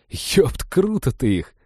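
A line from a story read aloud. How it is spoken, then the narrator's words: Sincerely respectful, after laughing. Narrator (Russian): с искренним уважением сказал Женька, отсмеявшись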